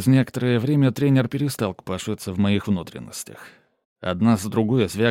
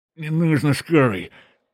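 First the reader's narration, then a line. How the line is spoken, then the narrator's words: Moan. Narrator (Russian): простонал я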